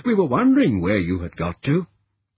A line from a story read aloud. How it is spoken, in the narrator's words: exclaimed happily